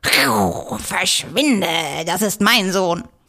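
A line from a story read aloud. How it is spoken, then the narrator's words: Cat's warning hiss. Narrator (German): faucht der Kater warnend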